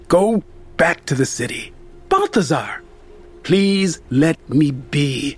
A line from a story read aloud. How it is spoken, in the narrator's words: he exclaimed